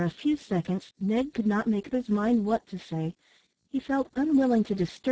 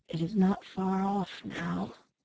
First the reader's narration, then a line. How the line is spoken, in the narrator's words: His voice sank to a whisper as he added